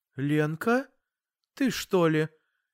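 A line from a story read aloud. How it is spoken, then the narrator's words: Mother's uncertain question. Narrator (Russian): неуверенно спросила мама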